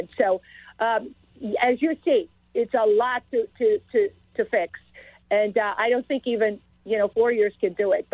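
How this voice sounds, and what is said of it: Speaks with a foreign accent. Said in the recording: “I came here with this accent that I have ... my national origin or my accent”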